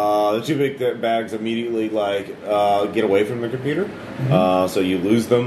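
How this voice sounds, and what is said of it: Usual voice. Nothing is said of it.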